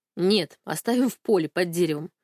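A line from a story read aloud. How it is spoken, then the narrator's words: Snorting. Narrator (Russian): хмыкнул Алик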